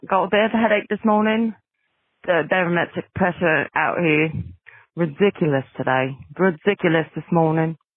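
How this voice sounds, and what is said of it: Put-on accent. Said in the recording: “Still using this accent. I was going to change it, but then I forgot.”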